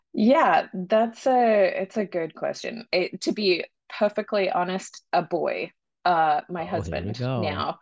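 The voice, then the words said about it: Australian accent, slight American tinge. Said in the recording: “It's Australian ... occasionally I hear myself with this little American, but I'm trying to keep my Australian accent.”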